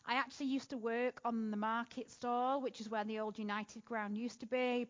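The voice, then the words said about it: North Manchester English accent. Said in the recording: “my accent is a little weird... I grew up in North Manchester”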